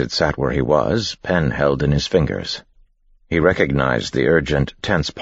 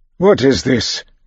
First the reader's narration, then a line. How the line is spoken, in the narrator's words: Haddock exclaimed